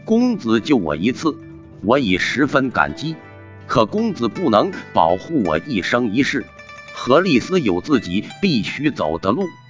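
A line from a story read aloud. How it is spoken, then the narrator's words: Tender, bittersweet. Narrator (Chinese): 何丽丝心中又是温暖又是酸涩，柔声道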